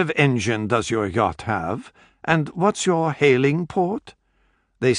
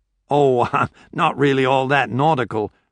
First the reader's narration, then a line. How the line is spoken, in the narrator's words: Betterton said with a chuckle